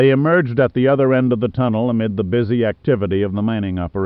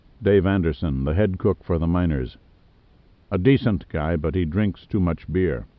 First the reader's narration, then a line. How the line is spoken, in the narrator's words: Broadmoor turned and said in a low voice to Pitt